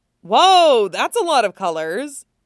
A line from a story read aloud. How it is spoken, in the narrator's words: Usopp exclaimed